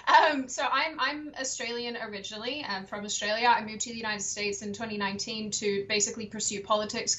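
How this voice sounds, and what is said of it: Australian accent with American influence. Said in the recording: “I am actually Australian, despite my my bizarre accent ... I want to sound more like you ... than the Yanks that are around us”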